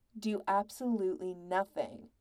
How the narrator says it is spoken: Patrick said firmly

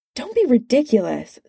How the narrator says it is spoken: snapped Banner

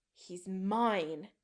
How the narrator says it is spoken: Chris snarls

